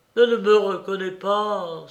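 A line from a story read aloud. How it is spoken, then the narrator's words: Despairing colonel exclaiming. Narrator (French): s'écria le colonel au désespoir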